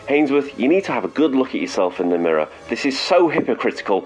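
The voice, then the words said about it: British accent. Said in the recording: “being told off in a British accent”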